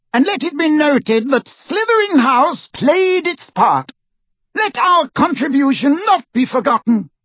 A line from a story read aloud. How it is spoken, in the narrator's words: Phineas Nigellus called in his high, reedy voice